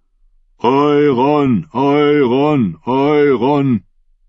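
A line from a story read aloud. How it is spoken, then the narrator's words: Chant swelling into roar. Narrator (German): Der Ruf schwoll an, wurde zum Brüllen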